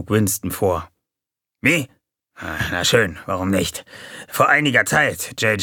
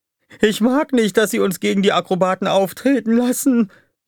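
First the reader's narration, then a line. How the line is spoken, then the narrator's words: Whining. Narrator (German): jammerte Dupi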